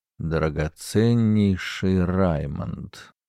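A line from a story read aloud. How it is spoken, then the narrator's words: Muttered. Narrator (Russian): пробормотал Герберт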